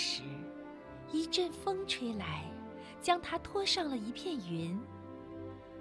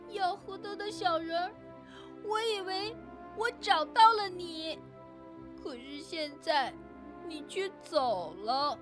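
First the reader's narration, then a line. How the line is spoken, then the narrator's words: Crying in despair. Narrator (Chinese): 玛丽陷入了深深的绝望，她哭着说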